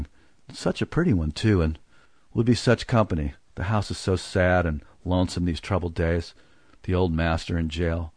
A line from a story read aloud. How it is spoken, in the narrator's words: She sighed and murmuring